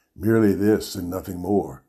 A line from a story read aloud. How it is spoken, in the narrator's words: I whispered